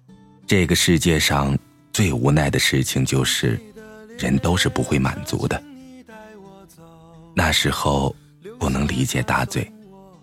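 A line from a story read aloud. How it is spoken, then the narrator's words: Sighing, slow and wistful. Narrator (Chinese): 大嘴叹了口气，悠悠的说道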